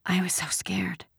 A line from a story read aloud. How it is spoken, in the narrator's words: Ellen whispered suddenly